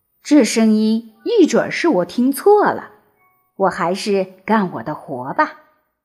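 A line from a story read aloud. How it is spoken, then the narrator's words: Laughing. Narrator (Chinese): 他笑着说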